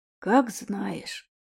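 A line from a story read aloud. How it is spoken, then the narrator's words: Old man's disappointed sigh. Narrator (Russian): дед разочарованно вздохнул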